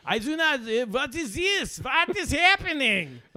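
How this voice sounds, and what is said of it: Put-on German accent. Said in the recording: “I wish I had an accent, man. If I was from Germany”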